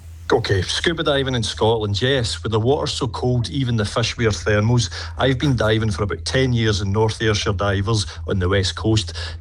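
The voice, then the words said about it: Scottish accent. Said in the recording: “the Scottish accent ... I've fallen in love with the accent”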